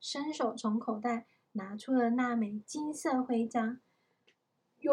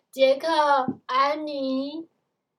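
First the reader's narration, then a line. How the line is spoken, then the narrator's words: Mother calling from afar. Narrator (Chinese): 远方又传来妈妈的叫声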